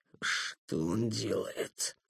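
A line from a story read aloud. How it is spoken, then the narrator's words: Strangled wheeze. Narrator (Russian): сдавленно просипел Доброгаст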